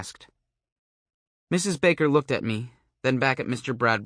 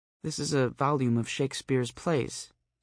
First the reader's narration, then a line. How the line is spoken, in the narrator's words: she said a little weakly